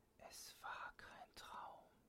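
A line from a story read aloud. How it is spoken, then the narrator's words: Whispering. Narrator (German): flüsterte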